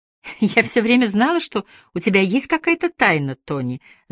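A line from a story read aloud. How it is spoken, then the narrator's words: Laughing. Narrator (Russian): засмеялась она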